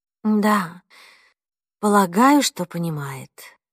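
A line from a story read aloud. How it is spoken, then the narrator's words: Sorrowful female sigh. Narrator (Russian): горестно вздохнула Виви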